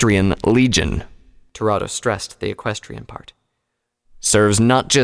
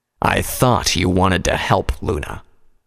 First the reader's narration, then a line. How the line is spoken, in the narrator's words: Toronto growled